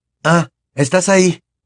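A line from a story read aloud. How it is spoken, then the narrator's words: Exclaiming on seeing her. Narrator (Spanish): exclamó al verla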